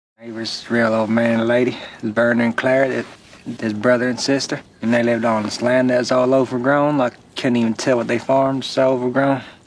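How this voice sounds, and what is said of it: Put-on American southern drawl. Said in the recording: “he really puts on the southern drawl, but it's very believable”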